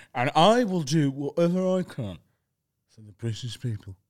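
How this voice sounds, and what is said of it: Imitates another person's voice. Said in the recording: “Is that Rishi Sunak? ... What a great impression.”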